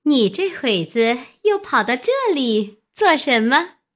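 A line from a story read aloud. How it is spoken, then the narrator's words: Laughing together. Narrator (Chinese): 都笑说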